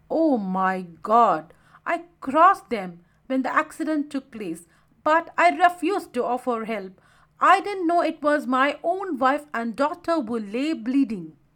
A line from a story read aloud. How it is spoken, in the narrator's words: Saravan exclaimed